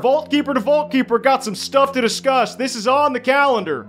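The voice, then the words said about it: Imitates another person's voice. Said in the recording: “my best Captain Donovan impression ... That's actually really good, man.”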